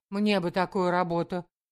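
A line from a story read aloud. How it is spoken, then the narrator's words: Exclamation. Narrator (Russian): воскликнула Таня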